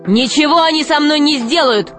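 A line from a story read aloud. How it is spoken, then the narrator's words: Shouted. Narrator (Russian): крикнул Грико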